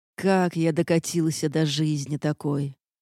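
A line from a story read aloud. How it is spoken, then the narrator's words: Muttered. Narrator (Russian): пробормотал он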